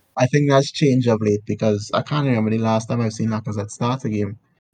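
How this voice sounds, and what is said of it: Hoarse voice giving out. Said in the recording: “I'm losing my voice.”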